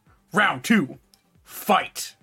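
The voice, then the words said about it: Video game announcer voice. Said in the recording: “in my best Mortal Kombat voice”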